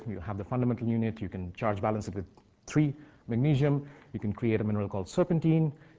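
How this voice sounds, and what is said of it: Indian English accent. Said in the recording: “Having an Indian accent, it can interfere.”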